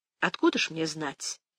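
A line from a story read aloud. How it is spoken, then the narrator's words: Calm remark. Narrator (Russian): спокойно заметила она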